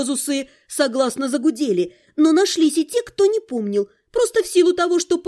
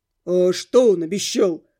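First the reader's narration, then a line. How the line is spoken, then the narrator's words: Very deep male voice. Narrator (Russian): спросил какой-то парень с очень низким голосом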